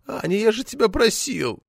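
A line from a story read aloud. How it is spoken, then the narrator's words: Whining. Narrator (Russian): Захныкал ТТ, сморщившись, как от уксуса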